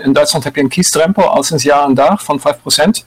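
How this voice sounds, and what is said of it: German accent in Dutch. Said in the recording (Dutch): “Jullie horen het aan mijn accent. Ik ben van oorsprong Duitser.”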